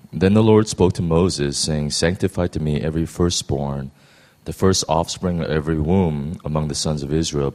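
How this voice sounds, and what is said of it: Hoarse, quiet voice. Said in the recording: “I have a little case of laryngitis, so I'm not going to be able to speak too loud.”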